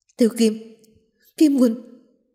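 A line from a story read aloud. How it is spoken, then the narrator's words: Two voices shouting together. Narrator (Vietnamese): Bạch Ngọc Đường và Nhất Chi Mai đồng thời hét lên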